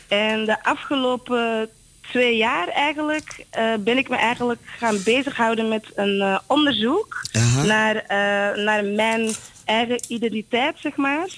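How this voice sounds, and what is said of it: Slight Flemish Antwerp accent. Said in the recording (Dutch): “zoals je hoort, ik heb een beetje een accent. Ik kom oorspronkelijk uit Antwerpen.”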